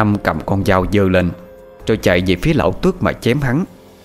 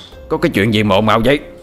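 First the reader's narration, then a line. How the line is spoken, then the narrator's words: Loud shout. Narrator (Vietnamese): quát lớn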